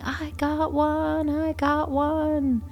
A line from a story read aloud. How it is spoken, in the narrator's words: he is screaming